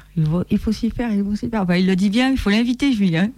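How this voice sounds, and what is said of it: Southern French accent. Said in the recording (French): “ton bel accent du Sud”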